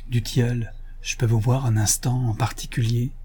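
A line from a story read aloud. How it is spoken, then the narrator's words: Whispering. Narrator (French): chuchota Sidoine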